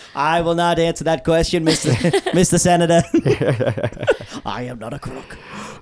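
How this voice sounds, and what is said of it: Politician impression with Boston accent. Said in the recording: “a really good impression of George Washington... The legendary Boston accent”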